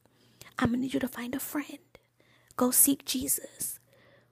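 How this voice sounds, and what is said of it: Soft whispery ASMR-style voice. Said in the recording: “in my ASMR voice.”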